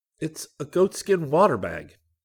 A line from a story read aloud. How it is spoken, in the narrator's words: Rick said excitedly